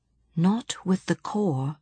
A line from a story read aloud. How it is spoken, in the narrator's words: Johnny said softly